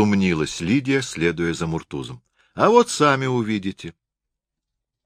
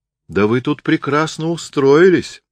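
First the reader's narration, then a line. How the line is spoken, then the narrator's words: Exclaiming. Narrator (Russian): воскликнула Лидия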